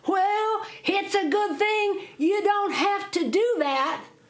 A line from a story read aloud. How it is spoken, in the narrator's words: Jack hollered back at him, says